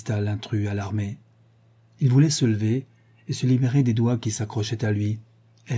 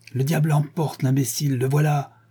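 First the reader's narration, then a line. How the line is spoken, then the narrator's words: Exclaimed. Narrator (French): s'écria Heathcliff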